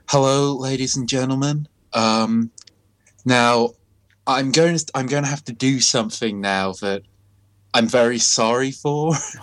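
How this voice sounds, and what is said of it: Soft-spoken mild American accent. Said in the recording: “like a very mild American voice ... a mild like American accent, but very softly spoken”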